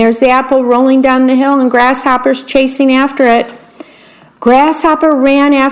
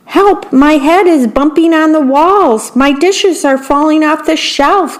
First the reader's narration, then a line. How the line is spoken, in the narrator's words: cried the worm